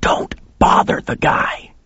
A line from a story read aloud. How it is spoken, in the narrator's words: he hissed at me